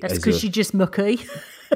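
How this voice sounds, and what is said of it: Good West Midlands accent. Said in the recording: “That's actually quite a good West Midlands accent.”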